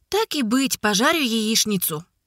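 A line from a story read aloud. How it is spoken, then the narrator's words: Sighing. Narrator (Russian): Вздохнула Котя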